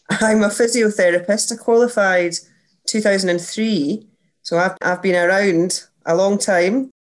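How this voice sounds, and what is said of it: Scottish accent. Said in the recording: “I'm Scottish, as you can hear by my voice.”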